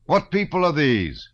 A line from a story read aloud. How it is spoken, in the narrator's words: he shouted to the men